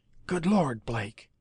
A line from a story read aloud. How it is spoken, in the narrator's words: he told the captain in an excited whisper